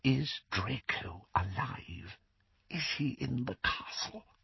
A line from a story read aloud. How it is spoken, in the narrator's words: The whisper was barely audible